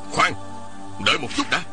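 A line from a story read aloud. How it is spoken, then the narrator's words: Hurried shout. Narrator (Vietnamese): Một Tang vội quát lên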